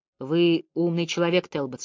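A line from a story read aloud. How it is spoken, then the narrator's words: Slow speech. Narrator (Russian): сказал медленно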